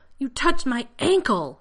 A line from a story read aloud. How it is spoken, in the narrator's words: John shouted